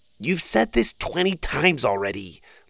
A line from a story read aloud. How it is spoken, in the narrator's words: Lou groaned